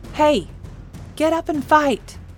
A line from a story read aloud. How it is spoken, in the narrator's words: said desperately